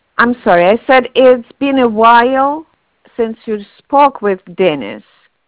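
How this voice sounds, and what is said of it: Heavy accent. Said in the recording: “Your accent's too heavy.”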